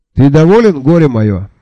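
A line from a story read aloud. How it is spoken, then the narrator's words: Plain. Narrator (Russian): спросил меня Джуфин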